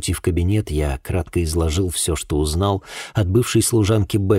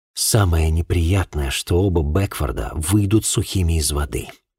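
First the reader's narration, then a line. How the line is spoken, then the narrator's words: Sigh. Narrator (Russian): вздохнул я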